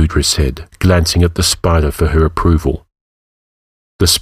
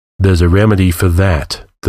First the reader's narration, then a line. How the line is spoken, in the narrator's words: the murderer said